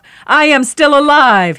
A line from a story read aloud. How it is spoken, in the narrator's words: bellowed